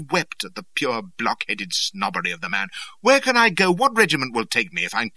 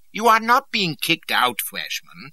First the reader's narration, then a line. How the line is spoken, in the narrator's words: said, and he was being positively kindly